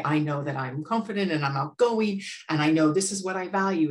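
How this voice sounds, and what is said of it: American accent. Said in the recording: “like you could tell from my accent, I'm American”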